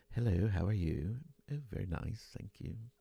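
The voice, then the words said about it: Put-on British accent. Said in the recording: “that was a British accent for those of you who don't enjoy my Omni accent”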